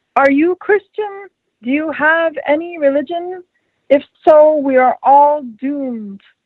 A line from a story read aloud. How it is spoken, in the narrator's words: An old man shouts to her